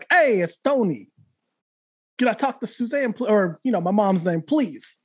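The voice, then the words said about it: Thick Brooklyn accent impression. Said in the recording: “he had this like really thick Brooklyn accent”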